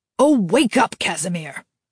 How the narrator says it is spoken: his father snapped

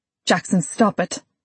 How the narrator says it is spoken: I snapped

